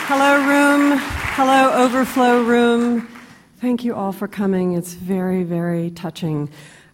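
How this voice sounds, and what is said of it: Voice with a head cold. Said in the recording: “I have a cold,”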